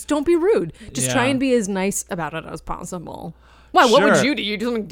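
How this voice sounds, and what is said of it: Usual voice. Nothing is said of it.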